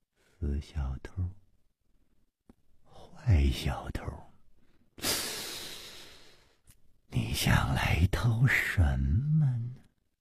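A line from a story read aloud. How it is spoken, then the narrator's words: Dreamy mumbling. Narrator (Chinese): 薛宝宝……呆呆的出神……喃喃地说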